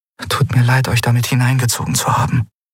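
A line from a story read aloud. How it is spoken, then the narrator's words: Whispered. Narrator (German): flüsterte Andriel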